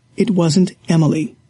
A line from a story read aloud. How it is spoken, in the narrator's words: he said calmly